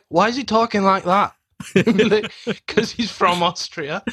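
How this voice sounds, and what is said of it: Imitates another person's voice. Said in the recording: “Great Carl Pilkington impression”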